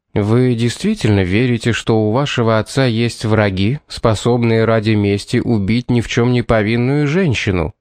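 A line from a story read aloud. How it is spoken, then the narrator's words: Plain. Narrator (Russian): спросил ее Томас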